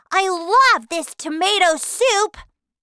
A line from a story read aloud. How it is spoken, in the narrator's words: Violet cried